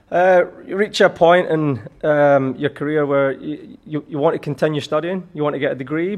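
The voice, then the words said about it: Slight Scottish accent. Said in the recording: “still got a little bit of the Scottish accent”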